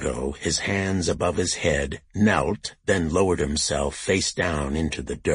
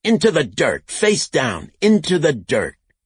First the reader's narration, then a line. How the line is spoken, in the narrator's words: Bob shouted